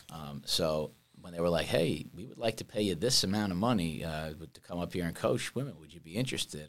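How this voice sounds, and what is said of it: New York accent. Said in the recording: “I'm from New York. Clearly, you can tell by my accent.”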